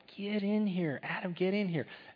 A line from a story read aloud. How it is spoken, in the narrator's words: everybody in the wailing house where everybody was gathered was screaming out at him